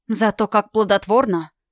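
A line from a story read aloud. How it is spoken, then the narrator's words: Muttered to herself. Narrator (Russian): Буркнула я про себя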